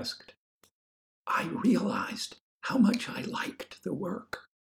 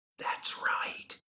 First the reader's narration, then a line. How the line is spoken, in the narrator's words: whispered Lorna